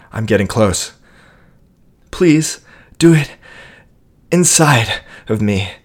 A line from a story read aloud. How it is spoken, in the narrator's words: she manages to get out through exasperated gasps